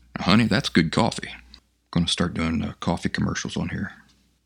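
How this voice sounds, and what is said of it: Slightly rough, off morning voice. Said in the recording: “My voice is a little off this morning... I'm trying to drink coffee to smooth it out.”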